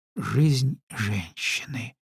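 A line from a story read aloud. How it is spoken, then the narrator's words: Whisper. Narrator (Russian): прошептала дочь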